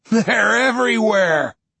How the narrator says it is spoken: he laughs

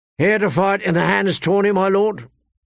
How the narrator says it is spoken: a guardsman called out to him

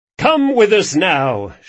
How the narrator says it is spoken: shouted the twins in unison

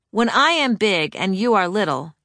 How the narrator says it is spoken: she often says

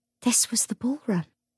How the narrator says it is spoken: she said in a soft voice

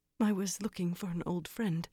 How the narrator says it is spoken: she quavered

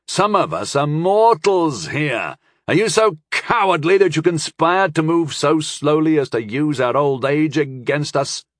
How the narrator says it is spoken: I mocked

